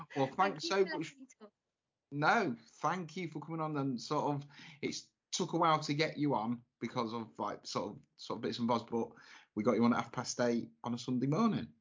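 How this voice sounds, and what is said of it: Northern English, Mancunian-sounding accent. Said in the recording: “you have a lovely accent, like at Robbie Williams. So I like a Mancunian accent ... I like sound like I'm from Manchester ... it's a cool accent”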